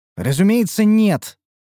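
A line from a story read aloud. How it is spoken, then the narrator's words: Tall woman's scoff. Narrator (Russian): фыркнула высокая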